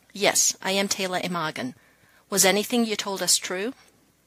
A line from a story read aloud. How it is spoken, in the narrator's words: coldly, Taylor said